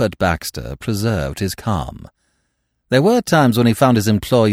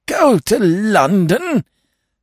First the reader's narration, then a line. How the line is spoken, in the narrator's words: gasped Lord Emsworth, appalled